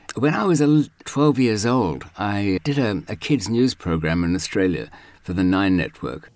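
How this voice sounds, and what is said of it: Old-fashioned Australian accent. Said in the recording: “my accent's actually a very old-fashioned Australian accent”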